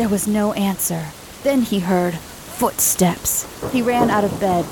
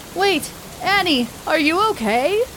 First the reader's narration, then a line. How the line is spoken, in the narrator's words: yelled again